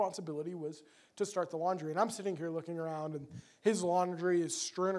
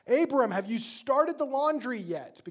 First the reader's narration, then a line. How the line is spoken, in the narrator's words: his mom would yell down the stairs